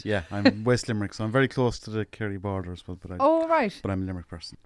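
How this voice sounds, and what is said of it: Irish Limerick accent. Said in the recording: “your accent is very Limerick, isn't it?”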